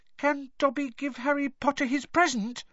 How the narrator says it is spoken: he squeaked tentatively

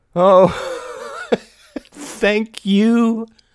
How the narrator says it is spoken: cried Mary, laughing loud and clear

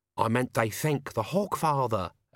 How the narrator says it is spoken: Albert hissed

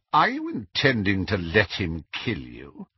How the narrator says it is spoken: his tone was sardonic as he asked

